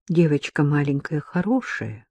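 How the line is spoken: Quiet. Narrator (Russian): тихо сказала Ирина

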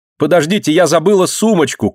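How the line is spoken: Sudden shout. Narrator (Russian): крикнула вдруг Марина

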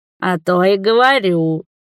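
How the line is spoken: Snort. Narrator (Russian): фыркнул

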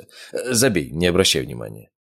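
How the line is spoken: Dismissive snort. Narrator (Russian): хмыкнул я

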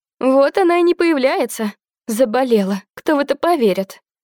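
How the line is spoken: Nasty giggling. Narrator (Russian): мерзкое хихиканье

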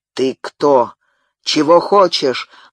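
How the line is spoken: Menacing question. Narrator (Russian): грозно спросил победитель у поверженного противника

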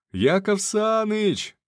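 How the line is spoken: Yelling. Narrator (Russian): орал

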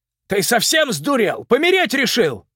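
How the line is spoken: Shouting. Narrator (Russian): закричал он

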